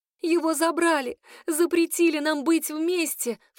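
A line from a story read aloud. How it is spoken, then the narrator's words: Sobbing. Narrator (Russian): всхлипываю я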